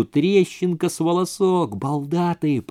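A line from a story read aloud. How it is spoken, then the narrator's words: Whisper. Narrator (Russian): прошептала она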